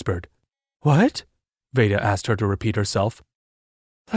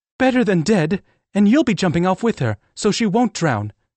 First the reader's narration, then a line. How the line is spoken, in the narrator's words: Veda snapped